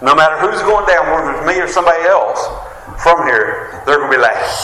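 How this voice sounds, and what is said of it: West Virginia hillbilly accent. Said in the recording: “your country from West Virginia... hillbilly from West Virginia. They know by our accent... hillbilly hick accent”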